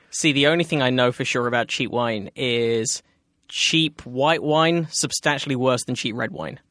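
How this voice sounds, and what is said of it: Foreign accent. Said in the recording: “He's got an accent.”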